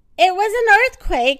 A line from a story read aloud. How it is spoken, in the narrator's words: shouted Mrs